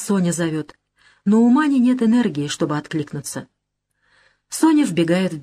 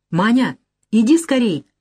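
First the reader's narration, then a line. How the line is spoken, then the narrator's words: Excited speech. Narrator (Russian): взволнованно говорит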